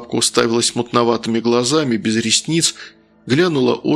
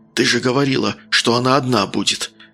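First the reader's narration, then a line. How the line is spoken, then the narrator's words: Hissed into ear. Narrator (Russian): прошипел ей на ухо Толик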